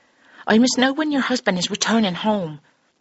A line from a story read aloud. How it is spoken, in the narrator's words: Mary asked somewhat impatiently